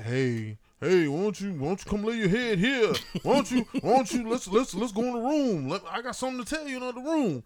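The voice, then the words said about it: Imitates another person's voice. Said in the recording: “that's a good Bernie Mac impression ... sound like Bernie Mac”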